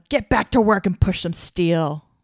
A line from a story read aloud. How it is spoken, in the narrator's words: He angrily shouted at them